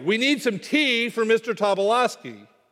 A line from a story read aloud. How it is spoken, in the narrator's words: they yelled